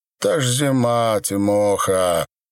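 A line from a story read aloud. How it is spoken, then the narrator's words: Short laugh. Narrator (Russian): хохотнул вошедший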